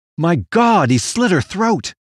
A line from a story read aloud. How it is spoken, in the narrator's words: exclaimed Gates, falling from his wheelchair